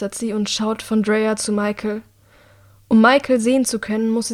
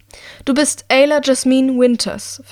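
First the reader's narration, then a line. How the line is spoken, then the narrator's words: Loud announcement. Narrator (German): verkündet sie mit lauter Stimme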